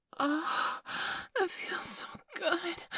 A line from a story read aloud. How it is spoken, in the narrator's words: I gasped